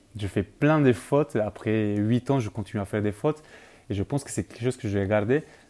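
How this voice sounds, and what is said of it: Non-native French accent. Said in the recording (French): “tu peux voir déjà mon accent.”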